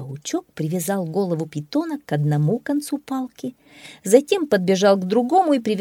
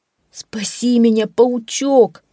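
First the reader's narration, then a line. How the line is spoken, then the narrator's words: Pleading. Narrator (Russian): взмолился леопард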